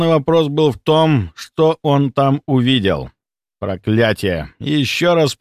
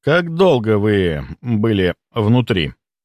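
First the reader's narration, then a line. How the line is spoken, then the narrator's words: Forced calm, suppressed fury. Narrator (Russian): Я старался говорить спокойно, хотя внутри все кипело от ярости и тревоги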